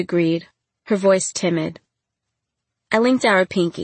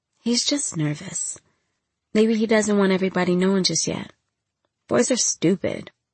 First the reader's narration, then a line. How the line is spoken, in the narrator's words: Scrambling to find comforting words, I whispered